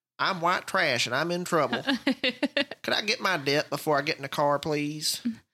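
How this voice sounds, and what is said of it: Exaggerated white trash accent. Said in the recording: “I got to say it in a white trash. ... I got to stop that accent. I'm going to be unintelligible by the end of this. I'm going to sound like Boomhauer”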